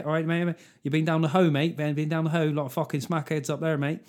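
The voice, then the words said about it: Plymouth accent with city edge. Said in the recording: “that weird accent they got down Plymouth where it's like got a slight fucking city edge to it”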